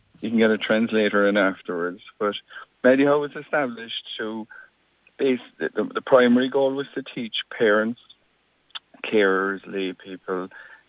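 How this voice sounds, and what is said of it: Irish Cork accent. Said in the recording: “the Cork accent”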